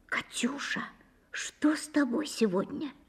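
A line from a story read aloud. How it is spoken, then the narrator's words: Whispered question. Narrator (Russian): Даша спросила шепотом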